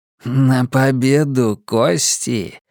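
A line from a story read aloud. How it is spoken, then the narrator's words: Cooing. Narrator (Russian): проворковал Джордж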